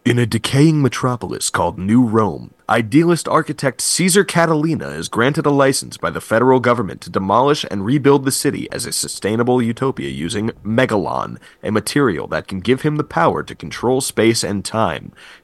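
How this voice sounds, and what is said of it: Dramatic movie trailer narrator voice. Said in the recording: “I'm going to put on my movie voice.”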